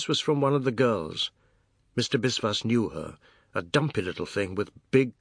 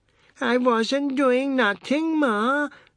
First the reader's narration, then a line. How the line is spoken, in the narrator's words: the boy wailed in English